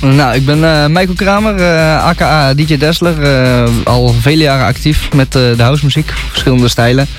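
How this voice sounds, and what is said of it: Slight Gorinchem regional Dutch accent. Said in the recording (Dutch): “Je hebt een beetje een accent... een beetje een Gorkums accent volgens mij... Dat is wel een beetje te horen... een beetje datzelfde taaltje”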